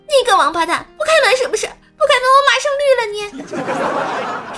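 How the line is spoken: Woman shouting. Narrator (Chinese): 那个女的喊道

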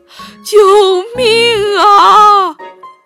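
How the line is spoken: Shouting in panic. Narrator (Chinese): 爸爸喊着

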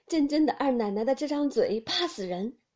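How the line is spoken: Laughing. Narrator (Chinese): 袭人笑道

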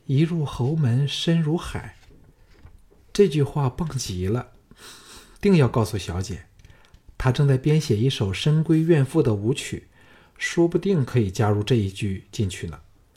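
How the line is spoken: Admiring, delighted. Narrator (Chinese): 芸娘赞叹说

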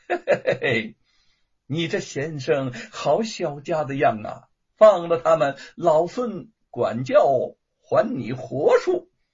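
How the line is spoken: Laughing. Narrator (Chinese): 行者笑道

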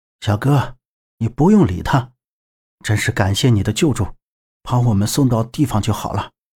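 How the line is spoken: Gentler tone. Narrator (Chinese): 对小哥语气好一点

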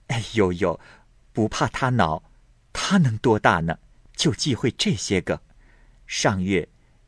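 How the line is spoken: Laughing. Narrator (Chinese): 秦氏笑道

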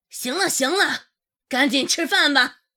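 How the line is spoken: Roaring. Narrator (Chinese): 就对着空气吼了一声

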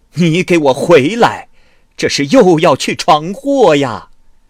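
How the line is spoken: Shouting. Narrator (Chinese): 崔母喊道

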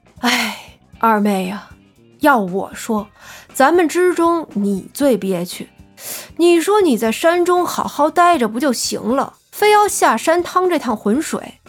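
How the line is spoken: Sighing. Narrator (Chinese): 老大叹气道

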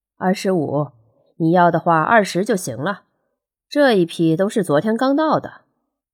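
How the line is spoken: Man, laughing. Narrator (Chinese): 摊主是个三十左右的男人，闻言便笑道

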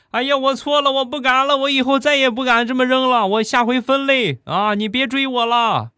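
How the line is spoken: Frightened shouting while running. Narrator (Chinese): 吓得他一边跑一边喊

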